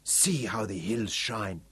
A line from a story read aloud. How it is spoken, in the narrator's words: Butso whispered, with an almost religious fervour